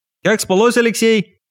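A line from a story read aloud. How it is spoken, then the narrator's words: Shouted. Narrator (Russian): крикнул он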